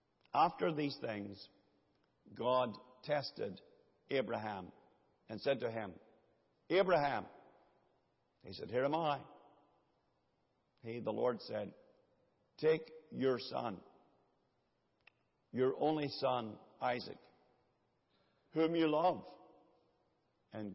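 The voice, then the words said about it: Reads aloud slowly. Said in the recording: “read it slowly”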